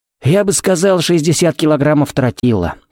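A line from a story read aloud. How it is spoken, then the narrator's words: Wry snort. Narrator (Russian): хмыкнул Феникс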